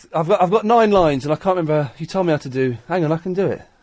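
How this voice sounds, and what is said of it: Breathless, out of breath. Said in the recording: “I'm all out of breath.”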